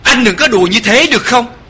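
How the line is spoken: Exclaiming. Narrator (Vietnamese): Kiều Kiều kêu lên

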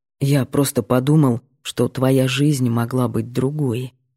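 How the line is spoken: Quiet redhead continuing. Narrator (Russian): тихо продолжает рыжий

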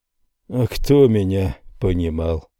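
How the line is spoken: Sighing. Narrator (Russian): вздохнул он

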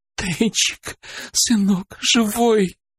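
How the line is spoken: Sobbing woman. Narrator (Russian): рыдала она

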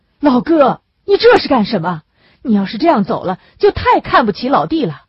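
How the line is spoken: Near-shouting. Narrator (Chinese): 马建斌…嚷叫一般地说

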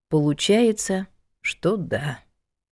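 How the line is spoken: Even sadder answer. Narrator (Russian): еще более печально ответила Алама Анна

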